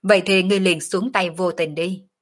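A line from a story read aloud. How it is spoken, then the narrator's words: Loud laughter. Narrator (Vietnamese): Sở Dương cười to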